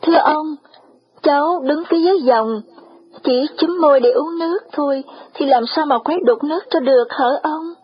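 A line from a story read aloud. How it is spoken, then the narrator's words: Trembling, respectful. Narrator (Vietnamese): Cừu run rẩy thưa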